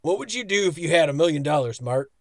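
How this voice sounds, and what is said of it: Imitates another person's voice. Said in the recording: “in my best Dietrich Bader voice”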